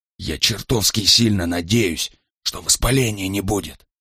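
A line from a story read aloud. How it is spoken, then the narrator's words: Whisper. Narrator (Russian): прошептал Брайан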